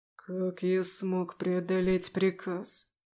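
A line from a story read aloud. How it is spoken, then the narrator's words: Breathless, to himself. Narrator (Russian): выдохнул он, обращаясь скорее к самому себе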